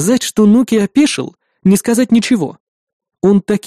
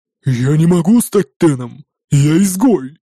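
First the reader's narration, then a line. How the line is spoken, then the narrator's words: Booming drone. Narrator (Russian): прогудел Нуки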